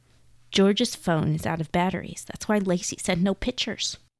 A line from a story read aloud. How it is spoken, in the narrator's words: Chelsea whispered